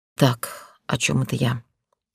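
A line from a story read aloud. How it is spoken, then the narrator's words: Mumbled. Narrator (Russian): Пробормотала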